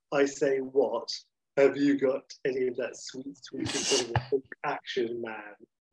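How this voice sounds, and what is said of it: Bertie Wooster-style posh English voice. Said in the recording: “in a sort of a Bertie Wooster sort of thing”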